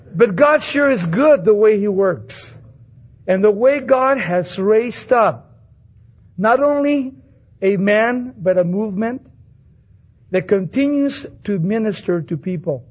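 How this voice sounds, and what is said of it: Chicano-sounding American English accent. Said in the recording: “when they hear me on the radio, they think I'm a cholo ... God gave me this accent”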